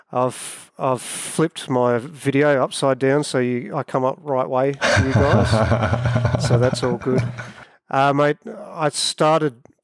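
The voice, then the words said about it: Australian accent. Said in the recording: “I'm based in a little country called Australia. You can probably tell by the accent.”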